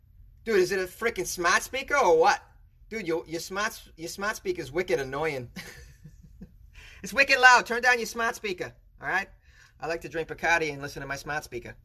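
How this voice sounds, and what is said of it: Put-on Boston accent. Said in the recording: “Or as we say in Boston ... it's such a fun word to say with a Boston accent.”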